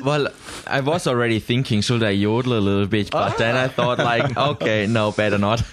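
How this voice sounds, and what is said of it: Austrian-accented English. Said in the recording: “they send me back to Austria ... what is your accent? And you've just answered it for me ... a bit of Edelweiss”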